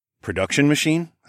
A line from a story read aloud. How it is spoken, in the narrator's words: I asked